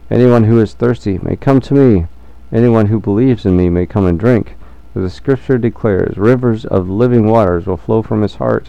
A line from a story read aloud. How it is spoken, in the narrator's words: Jesus shouted to the crowds